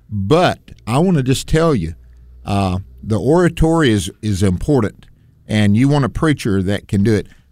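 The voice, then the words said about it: American Southern accent. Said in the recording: “We both are Southern boys, so we've got this Southern accent, me more than you.”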